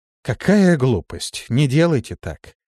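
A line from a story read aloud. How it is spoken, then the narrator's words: Calm. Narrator (Russian): Листи спокойно произнесла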